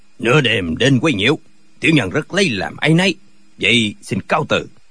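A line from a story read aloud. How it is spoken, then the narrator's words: Cold old man. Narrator (Vietnamese): Lão lạnh lùng nói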